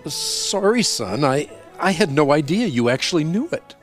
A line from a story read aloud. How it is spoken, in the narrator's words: Surprised, the father stammered